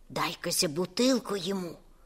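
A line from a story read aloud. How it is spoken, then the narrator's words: Hissed. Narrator (Russian): прошипела тетя Галя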